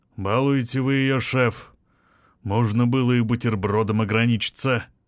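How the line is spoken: Deep bass voice. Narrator (Russian): он пробасил

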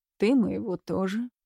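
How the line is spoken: Calm retort. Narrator (Russian): спокойно парировал он

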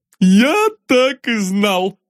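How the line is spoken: Exclaiming with hearty laughter. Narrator (Russian): воскликнул господин, названный Аркашей, и залился таким жарким хохотом, словно внутри у него бурлил котел оптимизма

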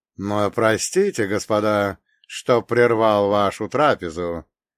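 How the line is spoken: Deep resonant voice. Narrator (Russian): произнес он глубоким и звучным голосом

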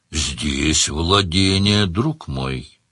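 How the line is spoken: Gentle interruption. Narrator (Russian): мягко прервал его Сварог

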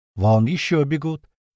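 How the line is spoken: Little one, oddly calm. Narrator (Russian): как-то спокойно произносит маленький

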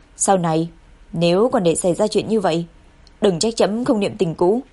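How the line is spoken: Cold familiar voice. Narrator (Vietnamese): một giọng nói lạnh lùng mà quen thuộc

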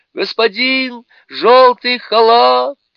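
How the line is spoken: Shouting with all her strength. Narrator (Russian): изо всех сил закричала принцесса

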